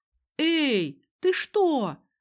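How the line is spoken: Exclaiming. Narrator (Russian): воскликнула я

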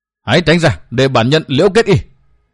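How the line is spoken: Roaring. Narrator (Vietnamese): Đoàn Trường Quỷ Vu gầm thét một tiếng nói

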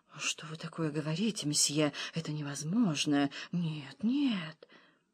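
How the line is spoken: Shaken, distraught mutter. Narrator (Russian): Не в силах решиться на что-то, в судороге этого душевного землетрясения она пробормотала

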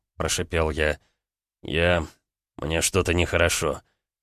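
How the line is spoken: Pained moan. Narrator (Russian): Простонал Ромка

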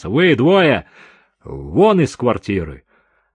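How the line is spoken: Stern commanding order. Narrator (Russian): седой полицейский грозным командирским тоном отдал приказ

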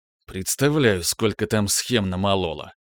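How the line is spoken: Joyless hmph. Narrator (Russian): хмыкнул я невесело

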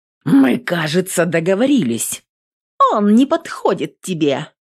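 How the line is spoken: Fearless exclamation. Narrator (Russian): Бесстрашно воскликнула Адель

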